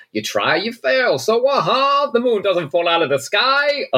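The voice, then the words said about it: Imitates a character's strange accent. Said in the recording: “that accent he put on ... I don't know what that accent was. It was incredible.”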